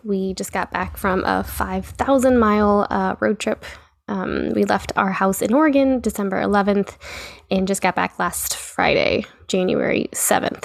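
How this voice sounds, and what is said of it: Voice sounds funny, sick. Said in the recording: “sorry if my voice sounds funny, just getting over being sick”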